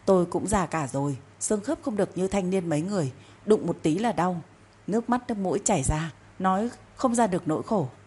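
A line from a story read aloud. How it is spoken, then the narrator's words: Loud moaning complaint. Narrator (Vietnamese): bà ta tiếp tục rên rỉ ầm ĩ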